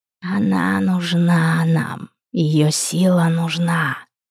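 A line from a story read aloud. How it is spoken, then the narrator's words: Greedy choking hiss. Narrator (Russian): жадно прошипел третий, словно давясь, захлебываясь слюной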